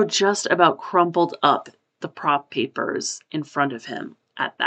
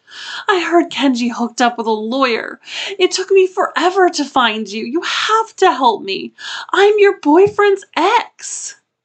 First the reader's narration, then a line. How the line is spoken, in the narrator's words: he loudly sobbed